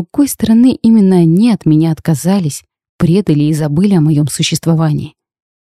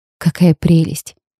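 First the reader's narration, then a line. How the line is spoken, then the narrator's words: Soft, careful voice. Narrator (Russian): Тихо, чтобы не спугнуть, сказала я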